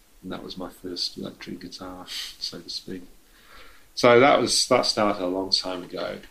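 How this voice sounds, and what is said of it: English accent. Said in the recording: “this is in England, I'm guessing, from the accent”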